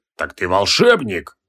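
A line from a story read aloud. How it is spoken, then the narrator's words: Menacing question. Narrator (Russian): грозно осведомился Кутруб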